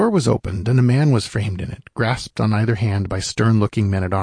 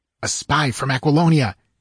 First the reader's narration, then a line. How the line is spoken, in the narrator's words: hissed Tresero